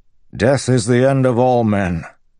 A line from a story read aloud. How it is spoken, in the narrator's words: Dalinar bellowed